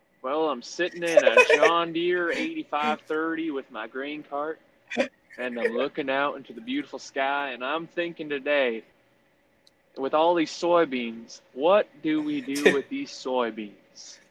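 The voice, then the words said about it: Put-on rural Texas farmer accent. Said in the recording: “I thought that was a good farmer's accent ... That was a good accent ... born in El Campo, Texas”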